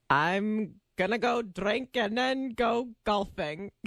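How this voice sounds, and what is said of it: Attempted Scottish accent, sounds drunk. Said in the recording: “can you do a Scottish accent?... Now you sound drunk”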